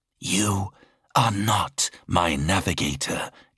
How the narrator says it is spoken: it spat

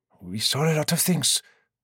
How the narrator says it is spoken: the one in the dress replied hesitantly

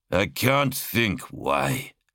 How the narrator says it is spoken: Sirion sneered

